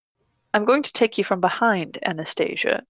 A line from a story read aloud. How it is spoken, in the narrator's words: he murmurs